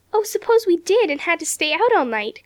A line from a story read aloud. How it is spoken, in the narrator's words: cried Dorothy